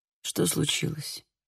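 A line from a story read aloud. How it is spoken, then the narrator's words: Weak mutter. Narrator (Russian): Слабо пробормотал он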